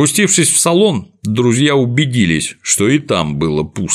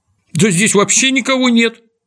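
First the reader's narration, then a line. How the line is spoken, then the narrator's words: Exclamation. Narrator (Russian): воскликнул Незнайка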